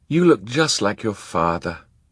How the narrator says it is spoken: Kit sighed

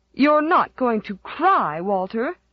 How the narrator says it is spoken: said Aunt Mary Maria, as if a 6-year-old might, would be disgraced forever if he cried

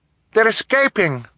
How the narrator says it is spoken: Violet cried

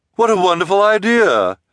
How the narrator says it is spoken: Esme exclaimed, as if the idea had not been hers

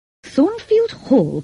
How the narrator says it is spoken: cried the priest

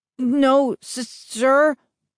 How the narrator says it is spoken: I stammered

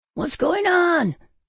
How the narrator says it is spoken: I screamed

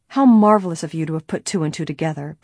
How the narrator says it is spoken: Bess exclaimed

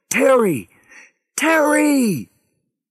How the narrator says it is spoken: Harry screamed into his radio

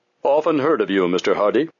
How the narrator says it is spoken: the actor said in a surprisingly deep voice that had a comical effect in contrast to his diminutive appearance

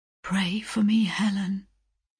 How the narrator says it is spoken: he murmured, faintly but distinctly

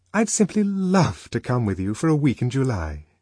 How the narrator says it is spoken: aloud and more warmly than ever

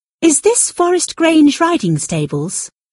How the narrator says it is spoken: asked him sweetly

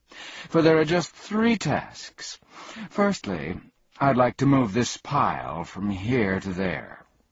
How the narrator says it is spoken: said happily

